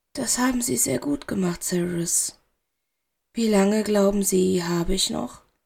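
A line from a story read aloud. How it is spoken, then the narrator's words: Very calm. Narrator (German): Er klang ruhig, so verdammt ruhig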